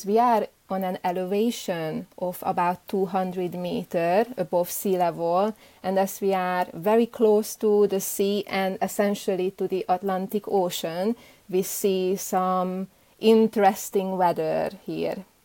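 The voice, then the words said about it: Hungarian-accented English. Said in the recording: “my accent is not really native to Scotland ... You don't sound like you grew up in Scotland ... I grew up in Eastern Europe in a country called Hungary ... my mother tongue is Hungarian ... you still can hear this”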